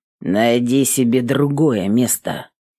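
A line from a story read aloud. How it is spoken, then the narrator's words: Menacing deep bass. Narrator (Russian): пробасил грозно он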